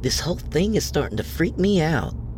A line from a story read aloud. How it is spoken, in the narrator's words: Sarah pleaded